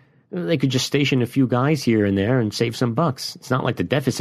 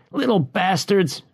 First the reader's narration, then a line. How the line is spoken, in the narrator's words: he yelled